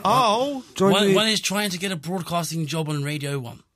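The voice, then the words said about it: Put-on posh accent. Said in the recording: “Do more of the posh voice.”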